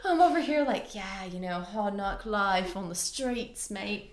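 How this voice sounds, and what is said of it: Unidentifiable put-on accent. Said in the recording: “What is that accent? I don't even know.”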